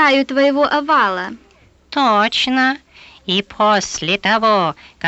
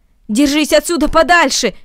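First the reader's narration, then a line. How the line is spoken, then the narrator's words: Shouted. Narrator (Russian): крикнул Наэль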